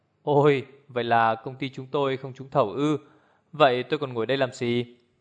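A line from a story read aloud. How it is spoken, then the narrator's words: Cold faint laugh. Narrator (Vietnamese): Lý Sương cười nhạt nói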